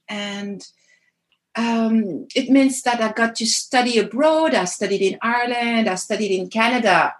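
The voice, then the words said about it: French accent in English. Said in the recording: “as you can all hear, right, I'm French. I guess the accent doesn't lie.”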